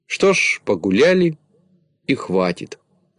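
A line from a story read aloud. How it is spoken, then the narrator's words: Plain. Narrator (Russian): ответил Знайка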